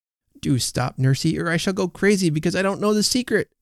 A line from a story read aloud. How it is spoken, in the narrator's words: cried Effie more than once